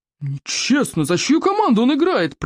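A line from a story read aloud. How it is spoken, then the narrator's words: Roaring. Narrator (Russian): проревел стойк обширный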